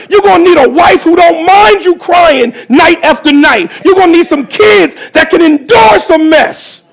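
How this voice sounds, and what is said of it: Screaming preacher delivery. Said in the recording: “That's what I'm screaming.”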